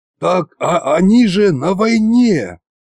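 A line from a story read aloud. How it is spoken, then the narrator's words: Breathless wheeze. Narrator (Russian): прохрипел я, жадно глотая воздух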